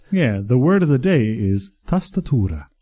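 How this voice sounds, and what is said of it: Weird Italian accent. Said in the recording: “I did it with like a weird Italian accent”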